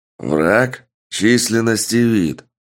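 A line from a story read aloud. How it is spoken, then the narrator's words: Stern commanding question. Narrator (Russian): Грозно спросил адмирал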